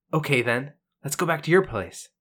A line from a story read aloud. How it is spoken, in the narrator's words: Guybrush quickly responds